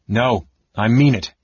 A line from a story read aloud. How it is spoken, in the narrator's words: Tanis said firmly, his voice carrying over the noise